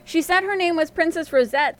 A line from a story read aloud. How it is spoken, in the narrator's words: the old man was saying